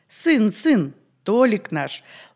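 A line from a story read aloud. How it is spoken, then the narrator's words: Tender, affectionate. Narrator (Russian): ласково подтвердила хозяйка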